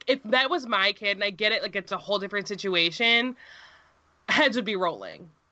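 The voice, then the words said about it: Yelling, outraged loud voice. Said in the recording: “I'm sorry that I'm yelling.”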